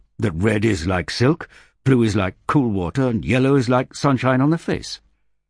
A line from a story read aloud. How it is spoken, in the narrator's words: snapped Rek